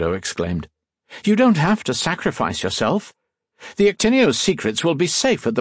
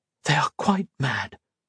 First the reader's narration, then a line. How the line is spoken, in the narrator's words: Colette whispered